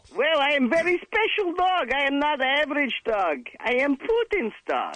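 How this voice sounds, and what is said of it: Bad comedic talking-dog voice. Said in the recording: “The beat is called Wheel of Bad Animal Voices.”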